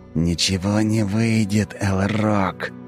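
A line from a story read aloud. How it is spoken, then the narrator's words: Angry hiss in face. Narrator (Russian): Зло прошипел мне в лицо Тиракл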